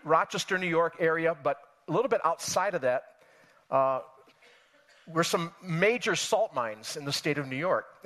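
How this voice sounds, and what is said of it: Western New York accent. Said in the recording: “I grew up in Western New York State. That's where I'm from. You can tell by my accent, of course.”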